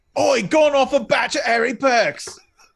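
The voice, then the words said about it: Put-on Cockney accent. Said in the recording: “in Cockney slang ... to do accents”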